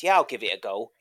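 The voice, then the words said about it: Imitated little wiggly accent. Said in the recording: “in his little wiggly accent.”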